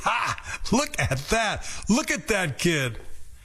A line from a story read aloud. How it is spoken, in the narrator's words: His friends laughed hard and they laughed like mockers and scoffers